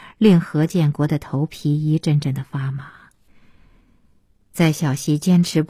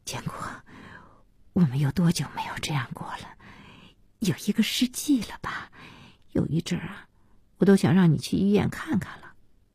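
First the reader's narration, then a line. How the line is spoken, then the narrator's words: Tearful murmur. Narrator (Chinese): 小西被这笑感动得要哭，嘴里喃喃的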